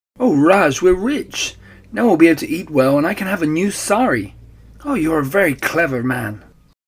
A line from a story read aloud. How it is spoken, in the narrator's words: she cried